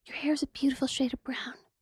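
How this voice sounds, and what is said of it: Creepy character voice. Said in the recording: “Your little creepy voice is ridiculous. Your peanut voice.”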